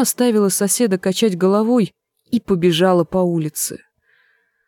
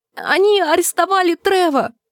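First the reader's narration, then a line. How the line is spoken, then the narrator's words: Shrieked. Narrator (Russian): Джульетта взвизгнула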